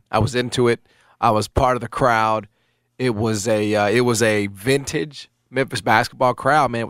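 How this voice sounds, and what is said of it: Strained voice cutting in and out. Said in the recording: “you can sort of hear that my voice is kind of coming in and out because I was in it”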